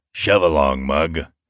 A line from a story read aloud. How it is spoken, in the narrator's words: grunted a fat man